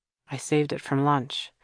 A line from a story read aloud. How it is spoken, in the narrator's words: he explained to Kira in a low voice